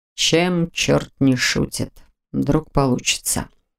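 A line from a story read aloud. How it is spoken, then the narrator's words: Muttered. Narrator (Russian): пробормотал он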